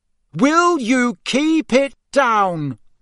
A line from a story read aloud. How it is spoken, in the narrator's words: he bellowed